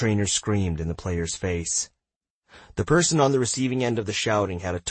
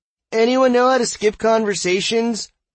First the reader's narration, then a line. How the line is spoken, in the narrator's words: suddenly yelled in an echoing voice